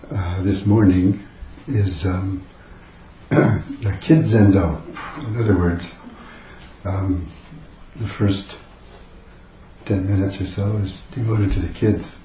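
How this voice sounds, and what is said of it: Strained voice after a cold. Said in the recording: “My voice is a little strange this morning because I just got over a sore throat and cold and all that. So that may sound a little funny.”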